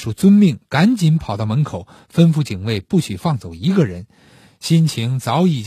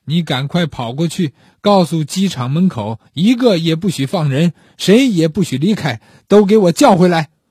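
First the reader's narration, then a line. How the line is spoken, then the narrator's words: Calm, soft murmur. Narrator (Chinese): 不喊不叫，只是向身边的秘书轻语道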